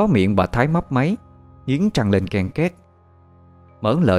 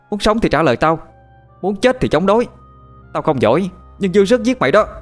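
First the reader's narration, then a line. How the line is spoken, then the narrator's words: Old woman shouting. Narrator (Vietnamese): bà tôi vẫn cứ quát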